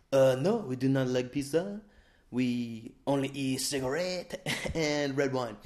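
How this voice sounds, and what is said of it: Put-on French accent. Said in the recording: “I think the French accent might be the worst one I do”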